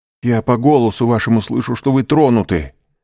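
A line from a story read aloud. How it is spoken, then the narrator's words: Exclaimed. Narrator (Russian): воскликнул Дантес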